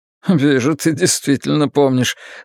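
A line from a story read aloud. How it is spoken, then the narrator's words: Laughing. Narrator (Russian): засмеялся Маккен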